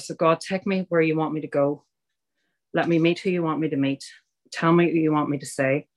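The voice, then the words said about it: Irish accent. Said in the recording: “I'm Irish, as you can tell by that accent.”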